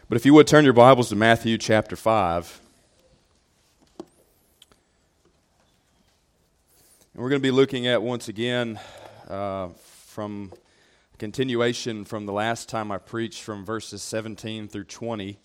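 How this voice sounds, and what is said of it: Deep voice from a cold. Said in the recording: “battling a bit of a cold ... do an impersonation of James Earl Jones ... famous for a very deep voice”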